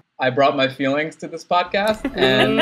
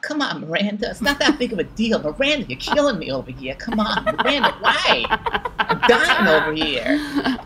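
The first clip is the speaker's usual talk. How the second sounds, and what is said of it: Imitates another person's voice. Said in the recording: “you look just like him when you do it ... That was a good impression.”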